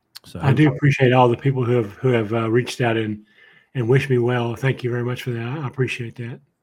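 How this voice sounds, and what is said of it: Impaired, not-normal voice. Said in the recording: “My voice is not right yet ... They think that maybe my vocal cords have been affected somehow”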